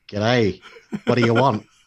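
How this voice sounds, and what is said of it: Weak attempt at Australian accent. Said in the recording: “I can't even do an Australian accent anymore.”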